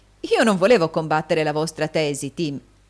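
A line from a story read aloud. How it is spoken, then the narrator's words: Young man laughing. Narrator (Italian): disse il giovane Cheeryble, ridendo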